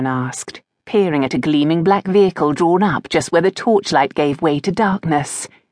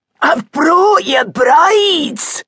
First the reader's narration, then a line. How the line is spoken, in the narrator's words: shouted over his shoulder